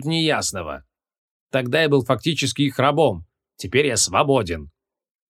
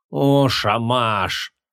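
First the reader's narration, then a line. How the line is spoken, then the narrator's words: Breathed out. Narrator (Russian): выдохнул Креол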